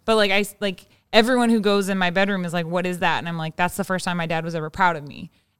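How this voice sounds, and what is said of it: Teary, emotional voice. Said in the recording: “I'm getting teary eyed ... I know I'm tearing up”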